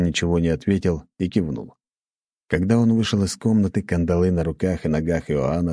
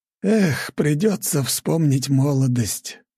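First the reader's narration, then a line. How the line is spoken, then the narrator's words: Sighing. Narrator (Russian): вздохнул Иоанн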